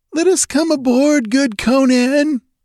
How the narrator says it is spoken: whined a red-sashed Zamorian, glancing fearfully over his shoulder

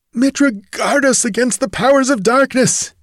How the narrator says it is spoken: he gasped

